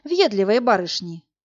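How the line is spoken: Inward sigh. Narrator (Russian): вздохнул про себя Власик

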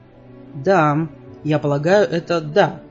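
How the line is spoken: Plain. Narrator (Russian): ответил Джаспер

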